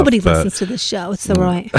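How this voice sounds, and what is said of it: Put-on British accent. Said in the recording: “I like how you said it with a British accent too.”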